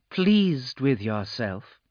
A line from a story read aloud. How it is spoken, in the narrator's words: a feminine voice purred